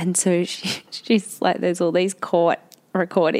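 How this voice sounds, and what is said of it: Usual voice. Nothing is said of it.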